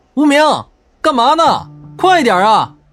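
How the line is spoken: Shouting from ahead. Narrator (Chinese): 前方的张晨喊道

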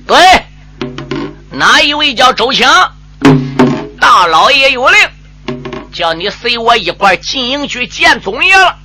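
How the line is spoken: Shouting. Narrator (Chinese): 小兵喊了

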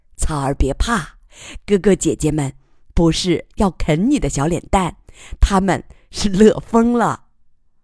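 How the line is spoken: Laughing, cheerful. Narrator (Chinese): 楚天乐笑着说

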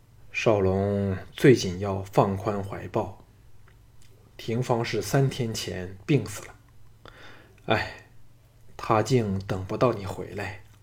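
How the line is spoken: Sighing. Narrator (Chinese): 吴应元叹了口气说

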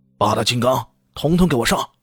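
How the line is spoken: Furious shout. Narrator (Chinese): 金平奇大怒啊，喝道

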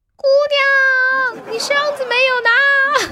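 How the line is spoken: Shouting. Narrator (Chinese): 那个师傅在车里面大喊

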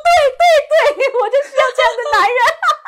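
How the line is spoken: Crying. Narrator (Chinese): 我哭着说

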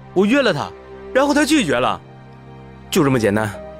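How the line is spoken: Angry roar. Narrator (Chinese): 小芳咆哮起来

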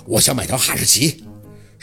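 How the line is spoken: Determined, through gritted teeth. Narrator (Chinese): 小六咬了咬牙

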